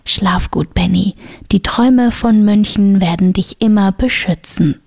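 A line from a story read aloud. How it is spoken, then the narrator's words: Whisper. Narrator (German): flüsterte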